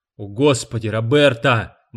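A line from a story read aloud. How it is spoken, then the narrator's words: Exclaiming. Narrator (Russian): воскликнул Гарб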